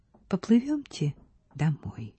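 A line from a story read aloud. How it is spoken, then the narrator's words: Quiet. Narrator (Russian): Стефа тихо сказала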